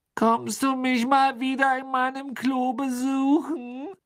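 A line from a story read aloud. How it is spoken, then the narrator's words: Sad questioning voice. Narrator (German): fragte die maulende Myrte mit trauriger Stimme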